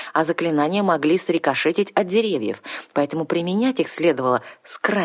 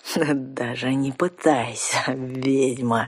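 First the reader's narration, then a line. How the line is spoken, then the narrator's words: Gloating triumphant hiss. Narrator (Russian): Со злорадным торжеством прошипел разбойник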